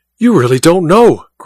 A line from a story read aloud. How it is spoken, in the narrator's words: cried Goodell, his eyes blazing